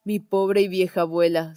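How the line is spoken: Sighed. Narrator (Spanish): suspiró Gerda

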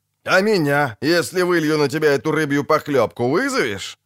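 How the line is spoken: Laughing loudly, shirtless man. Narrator (Russian): захохотал голый по пояс

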